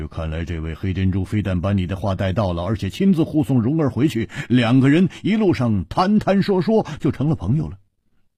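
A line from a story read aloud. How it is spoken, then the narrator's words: Laughing. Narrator (Chinese): 蝴蝶花笑着说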